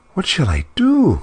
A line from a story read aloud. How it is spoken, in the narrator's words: she cried